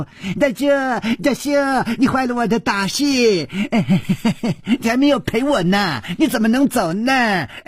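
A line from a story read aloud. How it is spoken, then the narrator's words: Cheerful shouting. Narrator (Chinese): 他笑嘻嘻地嚷着说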